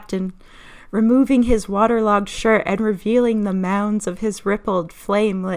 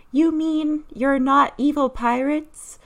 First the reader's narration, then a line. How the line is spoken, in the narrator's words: moaned